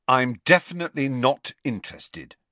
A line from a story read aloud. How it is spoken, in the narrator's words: said Harry firmly